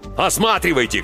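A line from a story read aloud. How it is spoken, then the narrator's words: Shouting. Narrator (Russian): кричал Клаус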